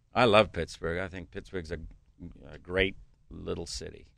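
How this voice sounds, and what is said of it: New Zealand accent. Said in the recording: “you have a different accent ... It's originally I'm from New Zealand”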